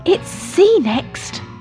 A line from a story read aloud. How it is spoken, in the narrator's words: shouted Fuzzy